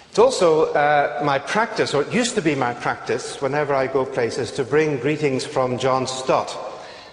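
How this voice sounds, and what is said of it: Northern Irish accent. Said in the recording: “now you can get used to one from Northern Ireland, which is where I come from”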